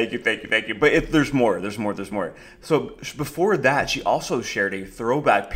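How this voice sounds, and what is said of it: Usual voice. Nothing is said of it.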